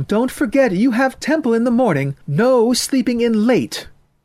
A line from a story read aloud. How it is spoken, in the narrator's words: She yelled after him